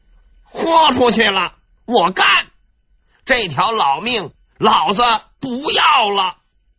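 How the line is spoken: Sudden angry roar. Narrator (Chinese): 枯坐沉思的张勇突然发出了一声怒吼

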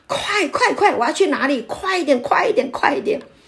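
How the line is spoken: Repeated urgent shouting. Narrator (Chinese): 他就这样子一直喊，一直喊

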